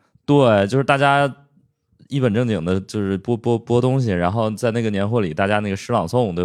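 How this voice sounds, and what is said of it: Usual voice. Nothing is said of it.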